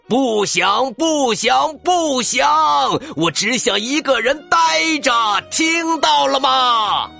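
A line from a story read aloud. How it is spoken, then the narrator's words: Frenzied roar. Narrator (Chinese): 大熊发疯似的大吼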